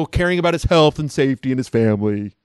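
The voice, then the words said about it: Mocking Twitter troll voice. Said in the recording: “That's my Twitter troll voice.”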